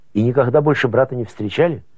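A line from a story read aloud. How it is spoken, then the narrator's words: Plain question. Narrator (Russian): Кафтаранг спросил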